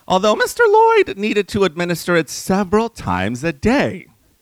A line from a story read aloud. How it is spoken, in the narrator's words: Bessie happily divulged